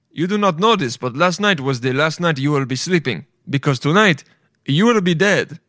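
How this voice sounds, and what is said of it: Put-on different accent. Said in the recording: “I'm giving him a different accent. Not sound racist.”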